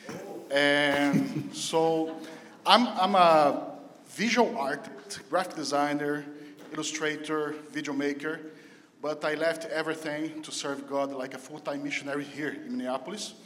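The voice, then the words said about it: Brazilian-accented English. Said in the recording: “My weird accent is because I come from Brazil.”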